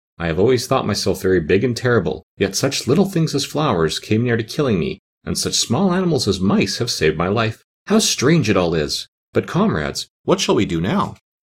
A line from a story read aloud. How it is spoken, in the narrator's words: the Cowardly Lion laughed and said